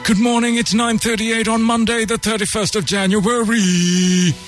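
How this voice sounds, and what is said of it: Formal newsreader voice. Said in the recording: “That's my news voice.”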